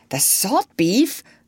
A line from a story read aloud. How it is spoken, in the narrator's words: cried the doctor